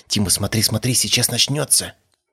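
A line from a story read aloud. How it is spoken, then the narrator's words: Whispered. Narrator (Russian): прошептала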